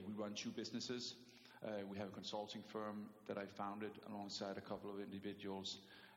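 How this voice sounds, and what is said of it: Danish accent. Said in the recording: “you don't need to apologize for your accent ... you're the second Danish guest”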